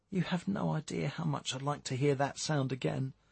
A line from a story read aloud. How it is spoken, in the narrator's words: Jane replied wistfully